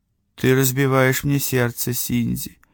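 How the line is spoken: Sad woman's remark. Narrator (Russian): все так же грустно заметила женщина

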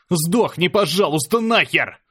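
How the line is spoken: Screamed at full voice. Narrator (Russian): Заорал во весь голос я

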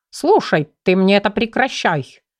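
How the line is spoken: Menacing indignation. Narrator (Russian): грозно возмутился тигр

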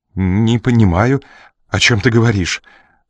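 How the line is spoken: Faltering, mumbling. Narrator (Russian): С трудом пролепетал он

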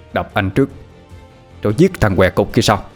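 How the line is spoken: Harsh gritted voice. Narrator (Vietnamese): gằn giọng nói

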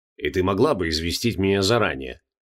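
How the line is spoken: Grumbling. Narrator (Russian): проворчал Джонатан

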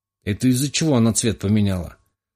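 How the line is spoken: Plain question. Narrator (Russian): спросил кошак

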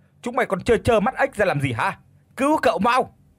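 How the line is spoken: Shout. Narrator (Vietnamese): Tiếng thét của gã

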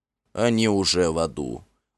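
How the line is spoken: Grim, regal. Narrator (Russian): мрачно проговорил король

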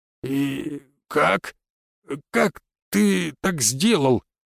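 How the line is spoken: Strained, stunned. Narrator (Russian): Только и смог выдавить из себя Бернар

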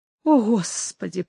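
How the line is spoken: Weak voice. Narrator (Russian): проговорила Инесс слабым голосом

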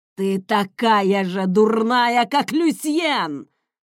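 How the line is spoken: Roaring. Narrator (Russian): взревел он

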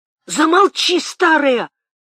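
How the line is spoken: Frightened shout. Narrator (Russian): крикнул Темляков в испуге

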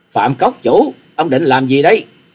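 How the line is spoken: Angry scream. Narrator (Vietnamese): Hà Xà Tiên Tử tức giận thét lên

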